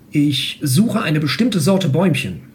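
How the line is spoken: Plain. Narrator (German): sagte der Herr

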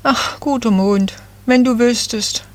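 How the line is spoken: Little fir tree sighing. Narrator (German): seufzte das Nadelbäumchen

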